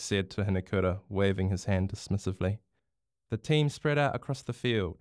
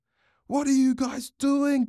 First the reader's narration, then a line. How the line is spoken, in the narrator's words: Bronx shouted